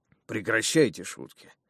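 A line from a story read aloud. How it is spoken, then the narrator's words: Weary giant. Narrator (Russian): устало проговорил великан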